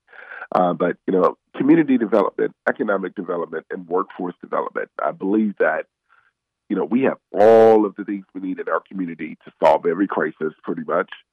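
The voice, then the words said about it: Sick, under-the-weather voice. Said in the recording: “pardon my voice, I'm pretty much under the weather today”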